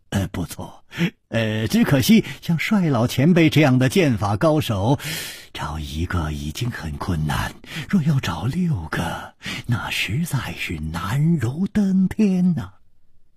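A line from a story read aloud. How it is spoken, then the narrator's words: Calm sigh. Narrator (Chinese): 李玉涵面不更色，叹道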